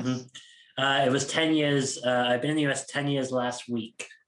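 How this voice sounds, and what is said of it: British accent shifted toward American. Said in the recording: “my accent is kind of halfway between the two countries at the moment ... you sound like you're from New York ... I'm definitely closer to Boston and New York for sure”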